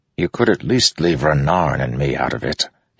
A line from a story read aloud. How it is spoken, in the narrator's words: he said softly to Kaladin